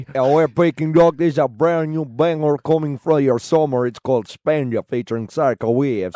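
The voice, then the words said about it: Put-on Swedish accent. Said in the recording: “doing a great... Swedish... impression... Can you intro it with a Swedish accent?... you do it way better.”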